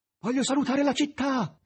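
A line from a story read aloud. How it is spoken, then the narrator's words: Master shouting. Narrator (Italian): gridò il maestro ad Azazello che volava davanti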